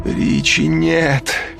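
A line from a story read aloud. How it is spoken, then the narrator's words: Moaned. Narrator (Russian): застонал Пирсон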